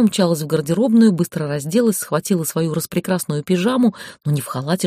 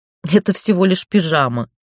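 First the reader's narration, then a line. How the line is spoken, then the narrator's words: Laughing. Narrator (Russian): Ольга рассмеялась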